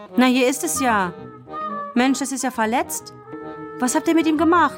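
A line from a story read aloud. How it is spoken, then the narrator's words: Sudden call. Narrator (German): Kevin rief plötzlich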